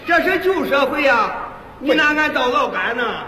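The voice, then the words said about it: Strong regional non-Mandarin accent. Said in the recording (Chinese): “就您这个口音，您还说相声呢？ ... 欺负外乡人？ ... 因为您这个口音呢、啊，不适合说相声。 ... 那这普通话就这味儿啊？”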